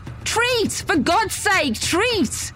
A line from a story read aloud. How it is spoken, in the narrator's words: Sprinting, I screamed into the night air